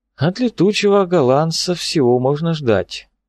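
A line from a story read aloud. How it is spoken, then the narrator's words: With a sigh. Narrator (Russian): сказал он, вздохнув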